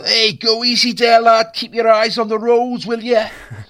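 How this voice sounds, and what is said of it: Exaggerated comic Scouse accent. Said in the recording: “unbelievable kind of comedy Scouse accent”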